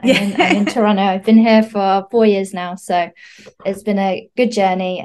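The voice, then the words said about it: British accent. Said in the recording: “accent is a gorgeous British accent”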